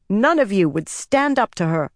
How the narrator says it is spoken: Egwene spat

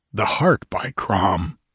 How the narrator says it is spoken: he muttered

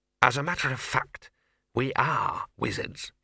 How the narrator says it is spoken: he hissed

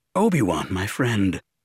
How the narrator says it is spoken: Didi spoke in a low tone

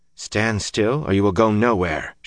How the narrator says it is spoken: she said calmly

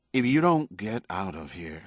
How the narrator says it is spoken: said quietly

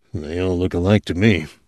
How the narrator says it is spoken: Morrison muttered

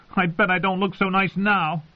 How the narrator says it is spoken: she shouted

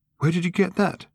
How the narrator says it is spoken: sharply, and with a gasp in his voice

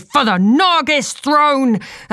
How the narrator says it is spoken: Cena shouted

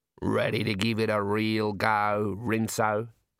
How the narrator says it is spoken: said Daggy

